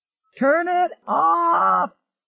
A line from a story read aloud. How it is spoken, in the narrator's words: he shouted